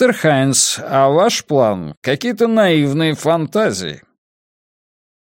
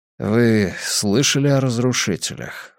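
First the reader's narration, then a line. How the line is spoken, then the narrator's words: Low-voiced question. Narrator (Russian): вполголоса спросил Хайнц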